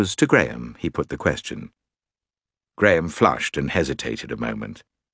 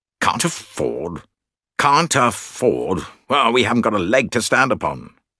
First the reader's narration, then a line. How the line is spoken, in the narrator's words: said her cousin irritably